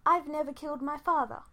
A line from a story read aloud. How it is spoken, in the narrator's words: Fi said, getting his in quickly